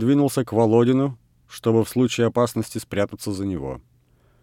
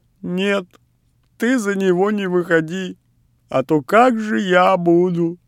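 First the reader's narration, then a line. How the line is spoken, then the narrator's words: Speech choked with stifled laughter. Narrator (Russian): Миша всхлипывая от сдержанного смеха, сказал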